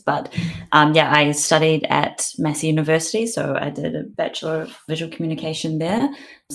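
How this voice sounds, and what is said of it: Thick New Zealand accent. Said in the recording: “it sounds like you have a Kiwi accent ... I still haven't shaken my thick Kiwi accent”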